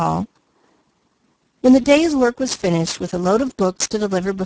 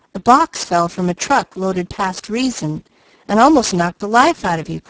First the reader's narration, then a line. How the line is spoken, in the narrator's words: cried Douglas